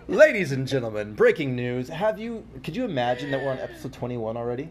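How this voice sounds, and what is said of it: News anchor voice. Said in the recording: “you sounded like a news anchor”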